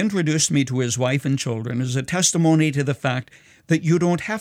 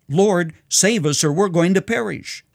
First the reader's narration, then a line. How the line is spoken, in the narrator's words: Fearing that the fishing boat on stormy Galilee would sink, Peter cried out